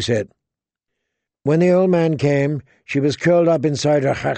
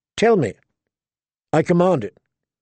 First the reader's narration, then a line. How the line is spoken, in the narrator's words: Danny said sharply